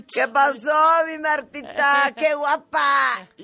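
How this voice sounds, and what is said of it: Imitated drunk voice. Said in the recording (Spanish): “no sé hacer voz de borracho”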